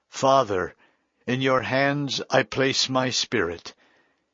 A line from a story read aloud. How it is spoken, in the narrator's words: Jesus cried out in a loud voice